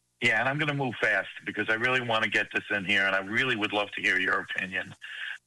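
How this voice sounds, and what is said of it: New York accent. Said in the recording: “You don't sound like you're from Texas, dude. Sound like you're from New York.”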